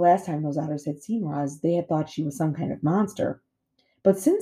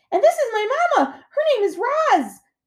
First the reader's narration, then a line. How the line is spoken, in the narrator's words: he shouted over the waves